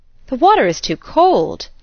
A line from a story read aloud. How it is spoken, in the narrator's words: they both exclaimed